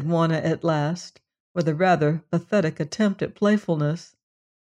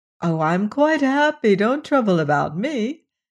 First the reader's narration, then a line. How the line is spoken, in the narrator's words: said, laughing as merrily as though there were no such things as sore feet and headaches in the world